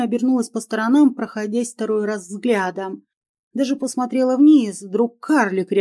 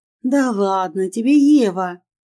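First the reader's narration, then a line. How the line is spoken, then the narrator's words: Laughing. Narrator (Russian): Я засмеялась от реакции женщины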